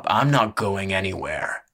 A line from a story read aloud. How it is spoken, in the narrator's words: the brawler grunted